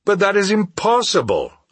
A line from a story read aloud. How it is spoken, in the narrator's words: I exclaimed